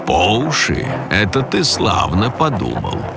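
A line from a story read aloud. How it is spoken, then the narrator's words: Chuckling. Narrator (Russian): хохотнул голос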